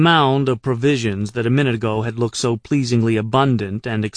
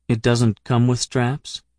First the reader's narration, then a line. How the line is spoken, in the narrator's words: I said in a new, level tone